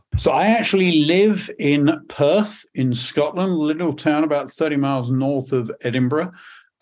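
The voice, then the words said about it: British English accent. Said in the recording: “from my accent, I am not a Native American. I'm actually British. ... I heard the accent.”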